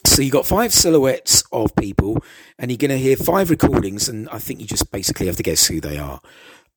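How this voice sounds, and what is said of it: Rough, unwell-sounding voice. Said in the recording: “sorry about my voice... my voice hasn't been what it was. I don't know whether it's this heat or whether it's a summer cold going around. I just can't seem to shake it off.”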